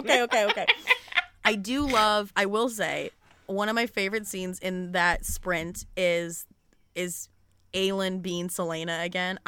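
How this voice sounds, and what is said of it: Midwestern Michigan accent. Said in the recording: “maybe it's my accent ... I think it's my accent, man. I think it's my Rolf. Midwestern Michigan accent.”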